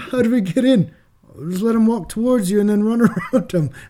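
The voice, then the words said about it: Bad put-on Australian accent. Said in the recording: “That's my Australian accent, yeah. really bad.”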